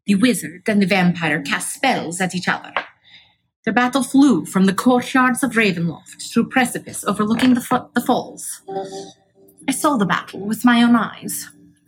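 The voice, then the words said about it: Put-on storytelling accent. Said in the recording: “This is so hard to keep that accent up.”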